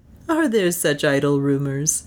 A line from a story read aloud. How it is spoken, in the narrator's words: asked Beatrice, with the music of a pleasant laugh